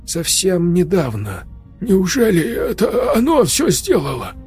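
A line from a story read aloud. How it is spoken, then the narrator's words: Trembling whisper. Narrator (Russian): Дрожащим голосом прошептал Сережа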